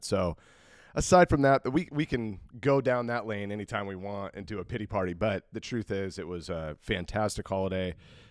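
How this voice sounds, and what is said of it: Voice still affected by illness. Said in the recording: “we got slapped pretty hard too... you can hear it in my voice, I'm still kind of overcoming some of it”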